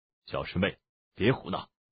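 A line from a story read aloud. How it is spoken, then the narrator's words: Low, uneasy warning. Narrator (Chinese): 宋大人的脸色微变，低声说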